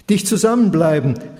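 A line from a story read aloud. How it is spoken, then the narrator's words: Pharaoh calling out orders. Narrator (German): rief der Pharao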